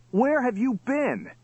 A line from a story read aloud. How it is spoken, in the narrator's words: cried Johnny